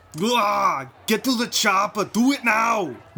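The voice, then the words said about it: Poor Arnold Schwarzenegger impression. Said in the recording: “do a great Arnold Schwarzenegger impression ... It's always these guttural sounds they make with their voice ... That was garbage.”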